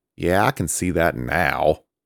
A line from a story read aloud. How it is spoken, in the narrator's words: Samael grumbled